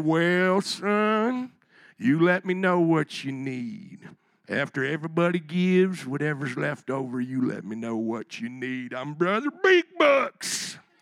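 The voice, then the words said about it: Put-on Southern twang. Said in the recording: “kind of bring in that Southern twang here, or Dukes of Hazzard ... he's going to be a little bit Boss Hoggy”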